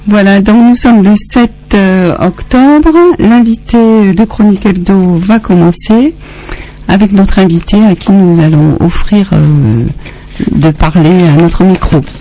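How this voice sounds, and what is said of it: Mediterranean French accent. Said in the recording (French): “moi avec mon accent méditerranéen, comme on dit”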